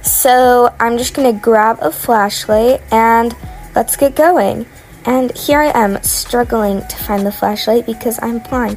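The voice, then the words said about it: Weird, sick-sounding voice. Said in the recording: “my voice sounds kind of weird. I'm currently sick.”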